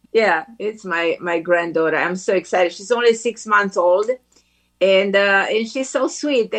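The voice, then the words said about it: Romanian accent in English. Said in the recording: “You're hearing this incredible accent ... who is Romanian by birth ... you grew up in Romania”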